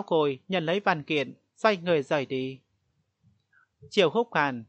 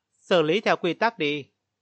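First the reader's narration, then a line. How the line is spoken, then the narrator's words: Cold voice. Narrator (Vietnamese): giọng nói lạnh lùng của Triệu Húc Hàn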